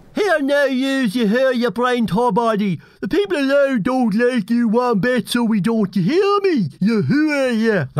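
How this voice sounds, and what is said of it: Peter Fitzpatrick impression, County Louth accent. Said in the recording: “TD Peter Fitzpatrick from County Louth, which you'd never guess from his accent”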